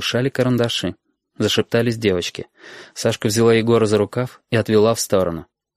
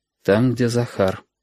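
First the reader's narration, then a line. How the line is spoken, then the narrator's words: Dull muffled reply. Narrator (Russian): глухо ответила Сашка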